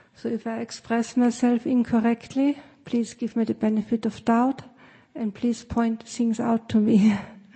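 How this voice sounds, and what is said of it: Austrian-accented English. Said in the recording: “as you can tell from my accent, I'm from Austria”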